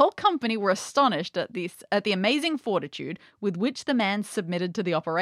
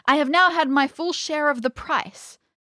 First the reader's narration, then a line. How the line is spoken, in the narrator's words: cried the fisherman